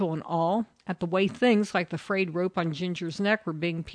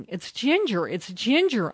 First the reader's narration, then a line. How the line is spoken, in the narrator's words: Uncle Benny had yelled